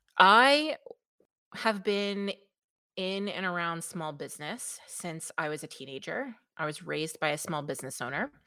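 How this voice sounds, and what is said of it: New York accent. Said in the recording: “I am from New York, if you cannot tell by my lovely melodious accent.”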